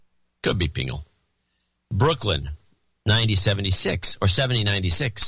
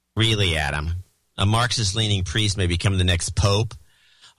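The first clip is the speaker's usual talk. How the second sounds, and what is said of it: Snide sarcastic reading voice. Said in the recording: “you have to do this in a snide voice”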